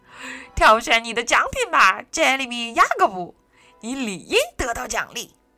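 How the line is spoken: Grinning old man. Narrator (Chinese): 小辫胡子爷咧开嘴笑着说

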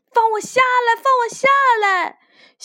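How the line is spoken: Frightened shouting. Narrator (Chinese): 害怕的，小官员大喊大叫

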